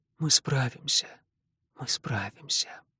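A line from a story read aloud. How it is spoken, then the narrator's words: Quiet speech. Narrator (Russian): мать ... тихо говорит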